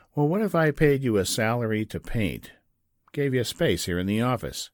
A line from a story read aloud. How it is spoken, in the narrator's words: Frank said